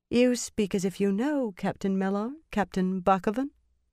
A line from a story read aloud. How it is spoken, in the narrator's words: Elaine put just a hint of question in that, but kept her tone casual